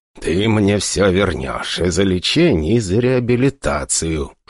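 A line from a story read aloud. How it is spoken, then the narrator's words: Hostile hiss. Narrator (Russian): шипел наш папашка с практически неприкрытой враждебностью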